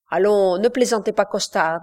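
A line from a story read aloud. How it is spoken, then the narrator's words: Plain. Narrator (French): dit Brillant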